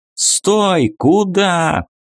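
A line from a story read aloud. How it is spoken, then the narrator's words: Shouting. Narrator (Russian): крикнул капитан Мак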